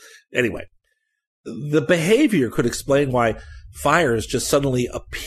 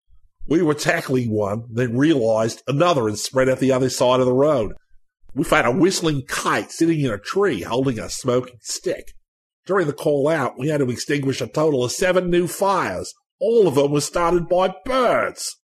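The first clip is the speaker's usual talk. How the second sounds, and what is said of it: Poor put-on Australian accent. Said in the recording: “forgive me for the terrible Australian accent. Oh, that was awful.”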